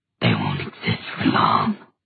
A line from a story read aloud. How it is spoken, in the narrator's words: hissed the Dantalian demon